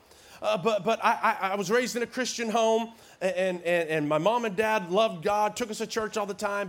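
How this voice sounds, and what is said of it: Slight Southern twang. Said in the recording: “I was raised in Tennessee my formative years. That's why I got this little twang still that I talk with.”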